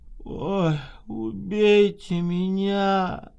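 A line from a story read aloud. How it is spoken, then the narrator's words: Drunken moan. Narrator (Russian): простонала полупьяная Скворцова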